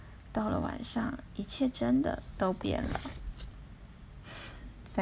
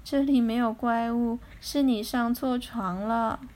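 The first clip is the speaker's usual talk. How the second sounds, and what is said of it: Sleepy, half-awake mother's voice. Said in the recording (Chinese): “妈妈用半睡半醒的声音说”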